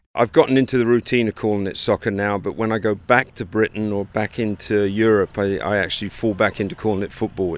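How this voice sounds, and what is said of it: English accent. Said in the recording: “As you might be able to pick up from his accent, ... grew up in England”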